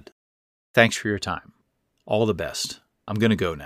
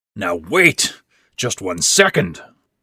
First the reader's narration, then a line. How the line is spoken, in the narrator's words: Ben said harshly